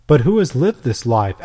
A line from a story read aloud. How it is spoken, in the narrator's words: asked Tiburtius